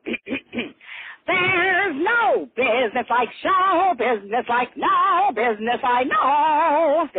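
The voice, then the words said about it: Imitates another person's singing voice. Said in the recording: “my Ethel Merman impression ... This is Ethel Merman.”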